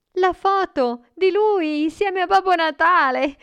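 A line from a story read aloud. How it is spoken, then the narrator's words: Boy exclaiming. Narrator (Italian): il ragazzo esclamò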